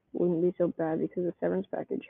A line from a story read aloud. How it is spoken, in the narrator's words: Harold mumbled